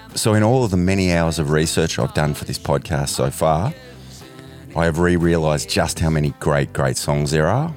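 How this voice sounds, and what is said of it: Sick, flu-affected voice. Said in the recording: “Excuse my voice this week, I've got a bit of a flu.”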